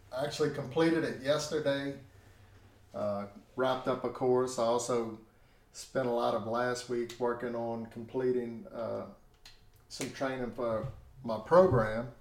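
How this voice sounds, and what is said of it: Strained, tired voice. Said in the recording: “My voice, it's a little bit strained right now ... my voice is a little bit tired”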